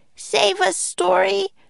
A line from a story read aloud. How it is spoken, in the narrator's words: she shouted